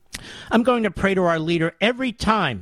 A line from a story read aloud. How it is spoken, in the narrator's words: Mary said excitedly